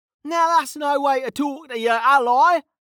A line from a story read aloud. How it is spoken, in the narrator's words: Kettle hollered back